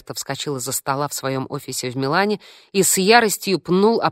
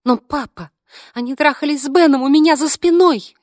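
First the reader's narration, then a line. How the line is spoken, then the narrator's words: Babbling excuses. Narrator (Russian): лепетала Фло в свое оправдание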